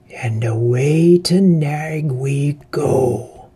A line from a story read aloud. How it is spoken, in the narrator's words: said the Bat Fang with a wicked laugh